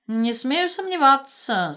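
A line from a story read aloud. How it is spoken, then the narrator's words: Dry, uncle. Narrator (Russian): сухо проговорил дядя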